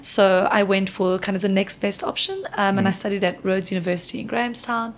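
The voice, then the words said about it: South African accent. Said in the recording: “As you can hear from the accent, South Africa”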